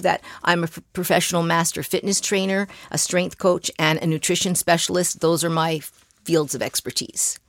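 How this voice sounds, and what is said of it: Canadian accent. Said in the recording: “this accent is a Canadian accent”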